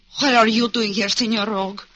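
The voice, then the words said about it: Put-on broken-down foreign accent. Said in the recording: “you can drop that broken-down accent.”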